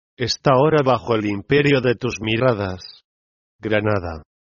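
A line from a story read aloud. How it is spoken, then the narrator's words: Murmured in ear. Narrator (Spanish): murmuraron a mi oído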